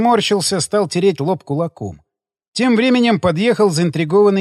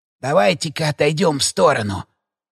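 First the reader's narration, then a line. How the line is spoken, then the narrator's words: Whisper. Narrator (Russian): прошептал Штильман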